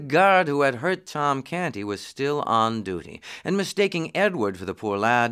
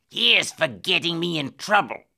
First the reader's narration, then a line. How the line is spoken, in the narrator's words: snarled